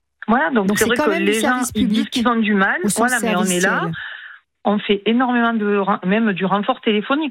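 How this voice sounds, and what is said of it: Singsong southern French accent. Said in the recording (French): “quand ils entendent mon accent, ils me disent « Mais vous êtes d'où ?»« Oui, mais je suis du Sud. » ... ce petit accent chantant”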